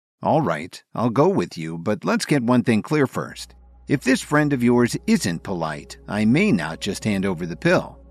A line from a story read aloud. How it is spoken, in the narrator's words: Kevin said calmly